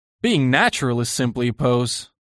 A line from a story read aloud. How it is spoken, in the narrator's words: cried Lord Henry, laughing